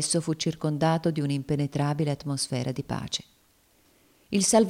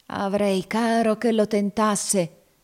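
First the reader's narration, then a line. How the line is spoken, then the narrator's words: Savage snarling exclamation. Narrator (Italian): esclamò con un ringhio selvaggio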